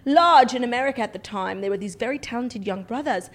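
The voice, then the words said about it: Put-on British accent. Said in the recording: “It's hard to say big in a British accent.”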